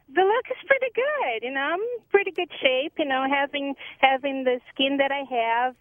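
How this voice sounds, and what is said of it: Sweet Brazilian accent. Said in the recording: “the accent's kind of sweet ... being Brazilian”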